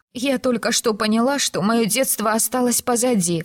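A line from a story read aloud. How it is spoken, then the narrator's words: Sobbing. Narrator (Russian): всхлипнула Филиппа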